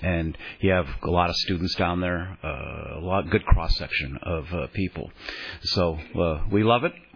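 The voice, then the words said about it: Deeper, tired-sounding voice. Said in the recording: “my voice is a little deeper this morning after 4 hours of talking nonstop ... Taxing and tiring”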